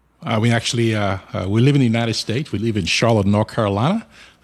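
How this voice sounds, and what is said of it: Nigerian accent. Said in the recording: “you can tell from my accent, I come way, way far from ... I was born in Nigeria”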